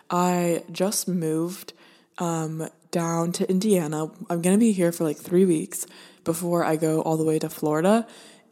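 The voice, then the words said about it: Deep, congested voice. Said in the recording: “my voice is so deep today ... I think that it's just kind of congesting everything up here”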